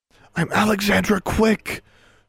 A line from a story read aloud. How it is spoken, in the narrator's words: she whispered more loudly, her words sounding raspy as she tried to make them carry down the corridor without actually vocalizing them